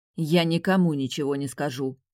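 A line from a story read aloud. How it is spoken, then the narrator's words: Angry, regretful. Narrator (Russian): зло проговорила, мгновенно пожалев о том, что доверилась Тимеону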